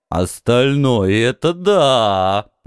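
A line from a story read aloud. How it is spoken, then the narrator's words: Booming, openly envious. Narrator (Russian): прогудел Бас с откровенной завистью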